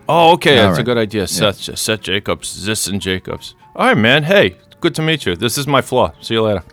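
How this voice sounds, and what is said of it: Put-on Boston accent drifting Bronx. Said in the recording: “Something went really awry with my accent there. It started as a simple Southie accent, but then it got Bronx-y or something ... you had a little Rhode Island, maybe ... Which is like a mix of Boston and ... New York”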